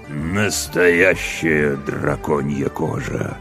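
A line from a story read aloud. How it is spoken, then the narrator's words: Haughty drawl. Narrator (Russian): надменно процедил темный властелин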